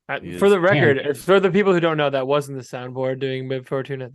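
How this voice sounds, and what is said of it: Usual voice. Nothing is said of it.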